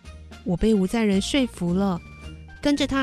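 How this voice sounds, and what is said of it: Usual voice. Nothing is said of it.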